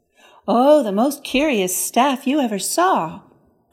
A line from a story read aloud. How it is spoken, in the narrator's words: cried Epimetheus